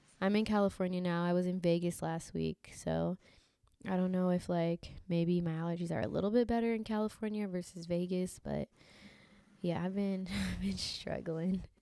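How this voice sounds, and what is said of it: Congested voice. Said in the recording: “I sound a little congested ... I'm still dealing with allergies”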